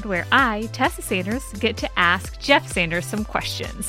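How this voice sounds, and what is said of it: Perky imitation of another's voice. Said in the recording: “You sounded like a very perky version of me.”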